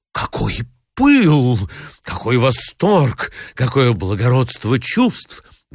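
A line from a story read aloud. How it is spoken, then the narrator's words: Exclamation. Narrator (Russian): воскликнула Марья Александровна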